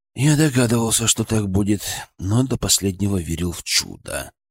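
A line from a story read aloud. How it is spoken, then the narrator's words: Sigh. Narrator (Russian): вздохнул Денис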